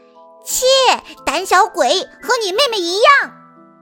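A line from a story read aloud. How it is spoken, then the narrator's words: Shouting. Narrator (Chinese): 塔菲嚷道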